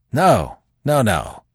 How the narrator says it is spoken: said Manfred fiercely

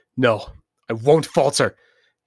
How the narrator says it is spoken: Kenji roared

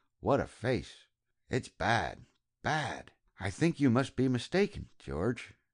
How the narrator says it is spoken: she said, under her breath

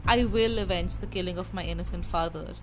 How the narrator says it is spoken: said

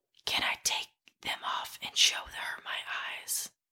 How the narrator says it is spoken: whispers

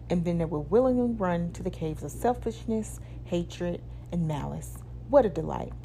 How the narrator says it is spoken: demons laughed

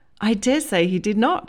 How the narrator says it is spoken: laughed, more naturally this time

